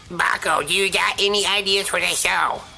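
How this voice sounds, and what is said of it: Imitates another person's voice. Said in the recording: “I will use a different voice ... to emulate ... my impression of what it's like to talk with Loose Cannon”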